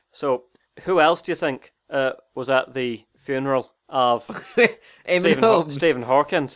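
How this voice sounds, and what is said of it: Put-on Northern Irish accent. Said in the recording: “In an Irish accent ... This is Northern Irish, Jimbo. Slightly different to Southern Ireland ... this is just a general Northern Irish accent, by the way. I'm not trying to do an impression of James Nesbitt”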